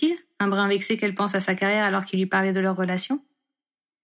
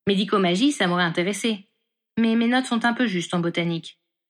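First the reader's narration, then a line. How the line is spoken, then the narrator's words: Plain. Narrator (French): répondit-elle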